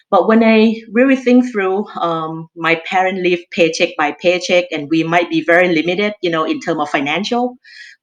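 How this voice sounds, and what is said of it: Thai-accented English. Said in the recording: “you can tell by my accent, I'm Thai. I originally from Thailand.”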